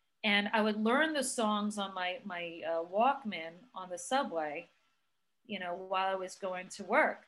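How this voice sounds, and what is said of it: Noticeable regional accent. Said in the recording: “there's my accent again, of course. Like, yes, you hear the accent”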